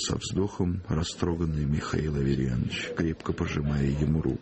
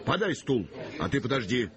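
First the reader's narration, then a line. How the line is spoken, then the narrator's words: Shouted. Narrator (Russian): крикнул он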